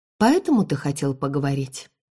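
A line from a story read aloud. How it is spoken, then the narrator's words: Cold question. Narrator (Russian): Холодно спросила я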